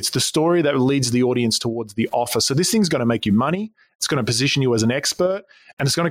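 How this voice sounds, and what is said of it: Australian accent. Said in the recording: “your sweet Australian accent”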